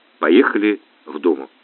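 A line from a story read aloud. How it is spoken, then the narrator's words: Quiet answer. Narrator (Russian): тихо ответил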